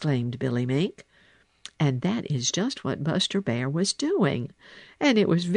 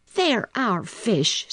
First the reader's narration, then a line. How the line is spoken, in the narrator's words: said Little Joe fiercely